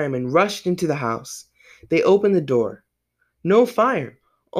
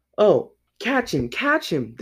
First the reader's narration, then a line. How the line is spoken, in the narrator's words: they cried